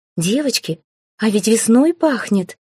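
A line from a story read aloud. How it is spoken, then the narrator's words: Surprised exclamation. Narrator (Russian): воскликнула Тьяна удивленно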